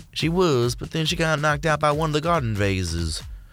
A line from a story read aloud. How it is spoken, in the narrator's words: a fourth sighed